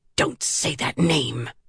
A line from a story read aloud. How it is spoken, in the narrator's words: she hissed